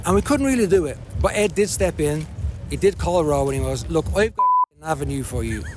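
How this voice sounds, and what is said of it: Speaker's own regional accent. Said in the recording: “I love your accent.”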